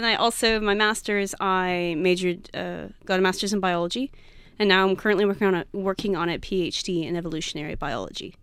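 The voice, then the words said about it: Texan American accent. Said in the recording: “by my accent, I am not from Australia. I am I'm from the U.S. Specifically, I'm from Texas”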